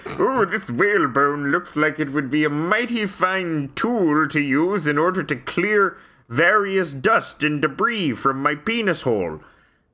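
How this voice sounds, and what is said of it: Weird old-fashioned accent. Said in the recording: “He had a weird accent”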